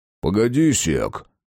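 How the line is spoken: Booming drone. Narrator (Russian): прогудел Верзила

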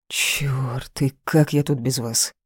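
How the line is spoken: Relieved grumble. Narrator (Russian): Проворчал, но с таким облегчением

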